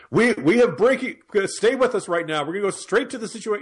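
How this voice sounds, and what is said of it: Breathless, urgent news anchor voice. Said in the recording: “sounds like he needs to breathe into a brown paper bag during any kind of breaking news ... that's my Wolf Blitzer impression”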